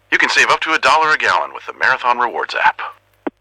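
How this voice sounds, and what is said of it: Impression of Max the Bald Eagle. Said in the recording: “Max the Bald Eagle from Marathon here. We asked people if they could do an impression of me. ... That last one was pretty good.”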